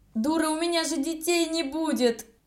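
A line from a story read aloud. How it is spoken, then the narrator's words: Howling. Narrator (Russian): завопил он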